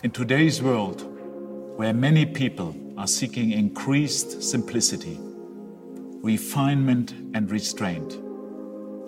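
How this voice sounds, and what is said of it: German accent, like Bond villain. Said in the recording (Dutch): “hij heeft een Duits accent ... het accent van een villain, van een slechterik in een oh, Bondfilm”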